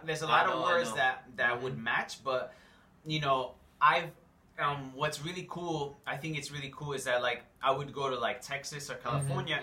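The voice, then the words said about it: New York accent. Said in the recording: “They just know by my accent ... Oh, you're from New York, right? ... just the way that you talk”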